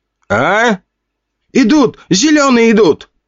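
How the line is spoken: Shouting. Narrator (Russian): закричал

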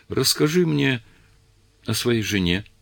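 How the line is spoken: Trembling plea. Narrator (Russian): попросила дрожащим голосом

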